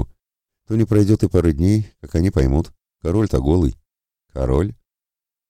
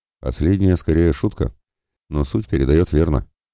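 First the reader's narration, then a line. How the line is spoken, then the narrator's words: Calm, mildly amused. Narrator (Russian): спокойно отреагировал Анимус, которого ситуация несколько позабавила, но не рассмешила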